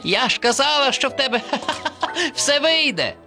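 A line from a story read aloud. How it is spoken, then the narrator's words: Laughing. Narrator (Ukrainian): Засміялася черепашка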